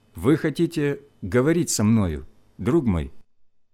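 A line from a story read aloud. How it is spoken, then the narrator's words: Calm question. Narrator (Russian): спросил я, спокойно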